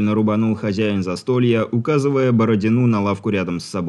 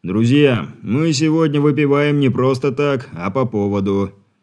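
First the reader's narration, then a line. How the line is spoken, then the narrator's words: Solemn proclamation. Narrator (Russian): торжественно начал вещать он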